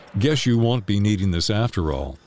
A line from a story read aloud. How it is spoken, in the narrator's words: he chuckled